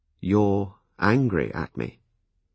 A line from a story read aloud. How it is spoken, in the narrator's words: I asked her slowly